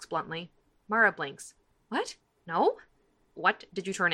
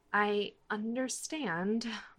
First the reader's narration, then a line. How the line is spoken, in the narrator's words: Mara says quietly